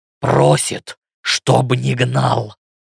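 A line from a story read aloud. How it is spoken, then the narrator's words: Growling. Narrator (Russian): рычащим тоном ответил Ленс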